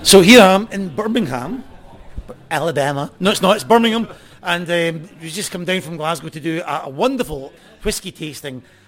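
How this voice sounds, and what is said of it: Distinctive accent, described as beautiful. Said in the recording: “You've got such a beautiful accent”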